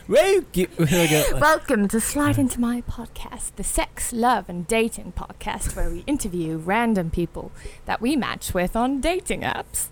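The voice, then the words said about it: Put-on English accent. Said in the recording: “Can I do it in British accent? ... pretend I'm my dad ... do an English accent.”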